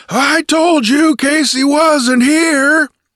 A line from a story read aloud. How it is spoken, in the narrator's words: he roared cheerfully